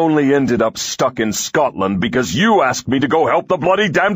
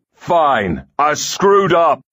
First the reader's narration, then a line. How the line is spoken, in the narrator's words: he yells back